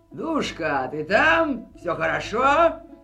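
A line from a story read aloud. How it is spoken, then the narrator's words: Hoarse shout behind door. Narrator (Russian): Закричали за дверью охрипшим голосом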